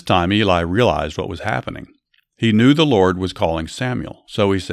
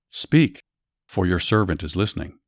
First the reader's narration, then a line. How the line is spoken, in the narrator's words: Quietly Samuel said